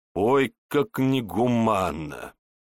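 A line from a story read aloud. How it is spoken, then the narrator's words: Chuckle. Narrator (Russian): хохотнул Егор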